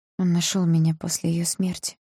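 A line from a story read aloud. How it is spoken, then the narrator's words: Whisper. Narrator (Russian): прошептала я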